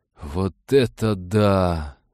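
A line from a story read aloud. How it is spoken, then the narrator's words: Awed breathless exclamation. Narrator (Russian): с благоговейным восторгом выдохнул Блайз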